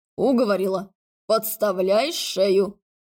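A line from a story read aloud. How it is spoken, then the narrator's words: Chuckling. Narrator (Russian): Алекс хохотнул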